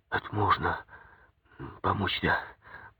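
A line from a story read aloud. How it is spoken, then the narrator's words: Quiet, young man. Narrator (Russian): тихо сказал парень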